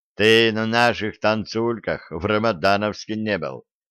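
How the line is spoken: Smirking young man. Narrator (Russian): хмыкнул парень

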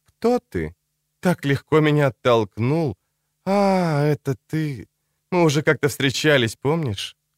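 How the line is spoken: Calm, smiling voice. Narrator (Russian): Говорила она спокойно, стоящейся в голосе улыбкой

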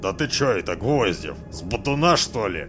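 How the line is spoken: Indignant outburst. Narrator (Russian): Возмущенно изрыгнул кадавр Рябинин

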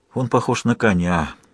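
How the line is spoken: Sighed. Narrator (Russian): вздохнул Лавут

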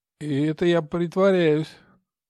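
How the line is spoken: Sleepy mumble. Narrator (Russian): сонно пробормотал Игорь

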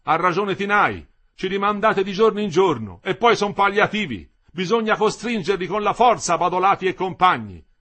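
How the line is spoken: Shouted. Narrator (Italian): aveva gridato Lindo

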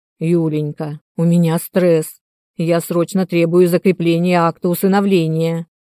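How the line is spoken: Growled into ear. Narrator (Russian): прорычал он мне на ухо

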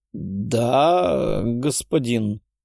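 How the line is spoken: Bewildered, uncertain. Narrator (Russian): растерянно проговорил Голицын, не зная, чего ему ждать от новых владельцев его души

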